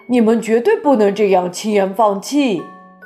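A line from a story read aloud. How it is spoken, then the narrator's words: Shouting. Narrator (Chinese): 空军首脑叫道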